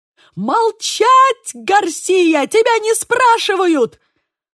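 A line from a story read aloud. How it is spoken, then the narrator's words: Furious yell. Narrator (Russian): завопил Манкада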